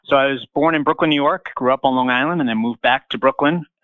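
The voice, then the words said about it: Slight regional American accent. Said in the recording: “they can detect a slight accent ... tell us where you got that accent that we hear”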